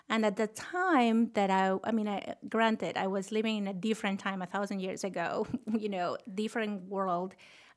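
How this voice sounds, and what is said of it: Thick Peruvian Spanish accent. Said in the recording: “I grew up in Lima, Peru ... the thick accent that I can get rid of”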